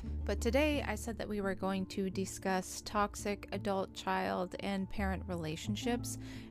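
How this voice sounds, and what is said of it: Slightly shaky voice. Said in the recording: “I apologize if my voice sounds a little shaky. I've been talking way more than I'm used to lately”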